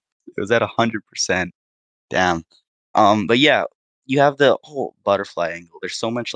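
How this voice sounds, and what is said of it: Usual voice. Nothing is said of it.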